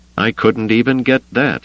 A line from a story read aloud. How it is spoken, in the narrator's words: Wedge said